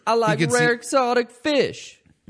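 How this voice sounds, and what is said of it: Imitates a comedy sketch character's voice. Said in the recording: “That's a great impression ... Classic SNL character Brian Fellows ... You're doing a Tracy Morgan impersonation”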